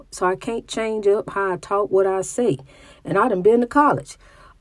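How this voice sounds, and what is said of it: Country accent. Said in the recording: “I talk country.”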